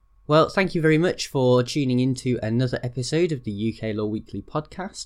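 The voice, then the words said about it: Strained, fading hoarse voice. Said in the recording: “I'm probably starting to lose my voice throughout that episode”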